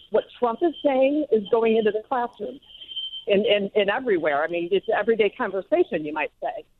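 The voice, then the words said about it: Out of breath, winded speech. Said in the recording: “I'm walking my 5 miles and I'm out of breath. ... winded.”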